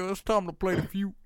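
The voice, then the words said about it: Imitates another person's voice. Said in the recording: “I can only do an impression of one black man, and that's Steve Harvey.”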